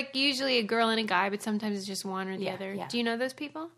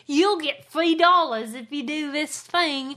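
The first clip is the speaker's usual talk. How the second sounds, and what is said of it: Bad put-on Australian accent. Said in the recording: “That is the worst Australian accent I've ever heard.”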